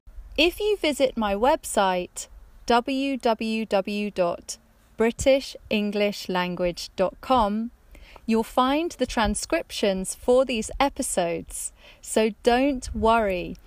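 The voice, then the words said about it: Neutral English accent. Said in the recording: “I grew up in the countryside in the middle of England, and my English accent is very neutral ... my British accent”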